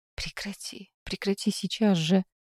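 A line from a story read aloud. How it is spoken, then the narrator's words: Whispered. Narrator (Russian): прошептала мама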